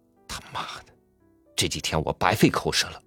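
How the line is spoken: Low, angry voice. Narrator (Chinese): 丈夫 他压低声音，怒气冲冲的说

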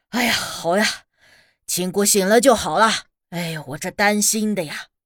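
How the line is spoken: Relieved, laughing. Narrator (Chinese): 顿时一笑，说道

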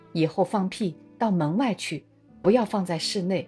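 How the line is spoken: Soft, serious, gentle. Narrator (Chinese): 李先生又用很轻而严肃的声音和气地说

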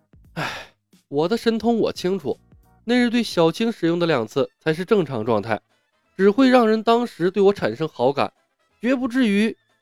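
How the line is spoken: Sighing. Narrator (Chinese): 李牧叹道

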